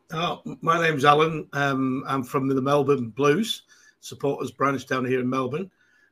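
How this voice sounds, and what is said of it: Manchester English accent. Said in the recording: “I'm from Manchester, as you can tell from my accent”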